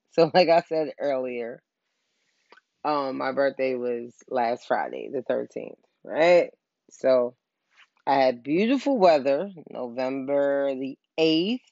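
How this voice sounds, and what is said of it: Sad, downcast voice. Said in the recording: “I sound sad because I'm sad.”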